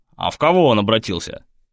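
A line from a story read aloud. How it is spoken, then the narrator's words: Chuckling. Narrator (Russian): Костя хохотнул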